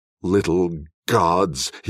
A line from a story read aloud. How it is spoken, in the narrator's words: snarled